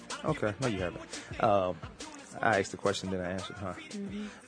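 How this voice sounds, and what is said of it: Fast-talking Virginia Southern accent. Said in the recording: “You know, I talk fast ... Now, I do talk fast. I don't know, it's a Virginia thing ... My accent would never leave. Never. And it's a Virginia Southern thing.”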